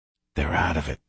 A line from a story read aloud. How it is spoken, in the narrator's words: I whispered